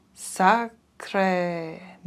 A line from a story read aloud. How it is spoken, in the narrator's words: murmured Poirot to himself